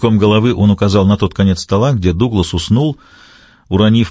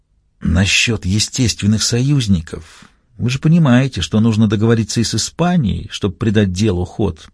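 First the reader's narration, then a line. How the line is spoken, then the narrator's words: Whisper close to ear. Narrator (Russian): прошептал он в самое ухо послу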